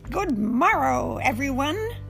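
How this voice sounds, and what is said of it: Loud shouted ladybug character voice. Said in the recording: “he shouted in his biggest ladybug voice.”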